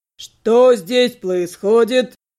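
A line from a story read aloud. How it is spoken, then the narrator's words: Familiar burring voice. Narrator (Russian): знакомый картавый голос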